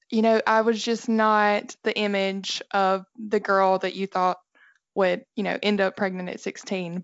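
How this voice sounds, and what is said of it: Southern American Alabama accent. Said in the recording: “It was in the state of Alabama. ... you can probably tell by my accent. ... Yeah, you've got an accent.”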